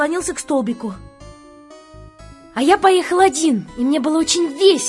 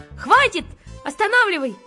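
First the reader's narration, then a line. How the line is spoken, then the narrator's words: Shouting. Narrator (Russian): крикнул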